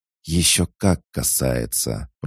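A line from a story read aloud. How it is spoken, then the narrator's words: Hissing. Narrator (Russian): прошипел лагрианин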